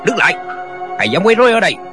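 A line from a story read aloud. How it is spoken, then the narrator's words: Shout. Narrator (Vietnamese): một người quát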